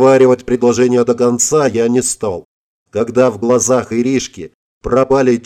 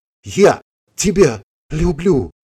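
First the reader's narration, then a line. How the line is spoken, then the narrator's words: Whisper. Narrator (Russian): прошептала она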